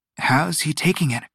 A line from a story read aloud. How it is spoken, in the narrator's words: She whispered